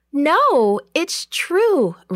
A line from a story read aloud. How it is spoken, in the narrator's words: Rhoda cried